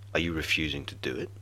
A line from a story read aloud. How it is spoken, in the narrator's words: asked